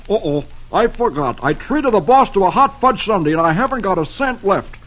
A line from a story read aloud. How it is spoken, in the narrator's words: He exclaims